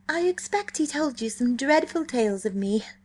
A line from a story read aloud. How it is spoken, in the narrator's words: she said happily